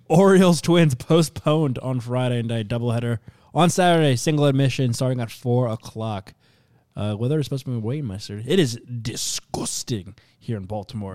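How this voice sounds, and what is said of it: Put-on accent. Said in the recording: “What accent was that there?”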